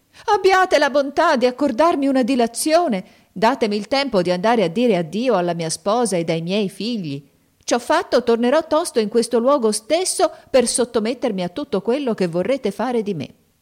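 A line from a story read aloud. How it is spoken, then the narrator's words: Terrified pleading cry. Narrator (Italian): il mercante vide che il genio stava per troncargli la testa, gettò un grido e gli disse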